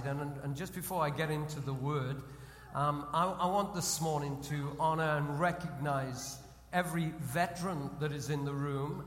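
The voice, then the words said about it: British accent. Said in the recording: “we British ... your accent gets you into a lot of trouble over July 4th”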